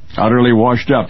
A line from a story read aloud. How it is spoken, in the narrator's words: he said